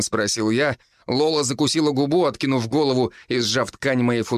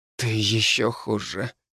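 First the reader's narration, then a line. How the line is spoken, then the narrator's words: Quiet, pleasured girl's reply. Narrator (Russian): так же тихо отозвалась девушка, пока волна удовольствия накрывала ее во второй раз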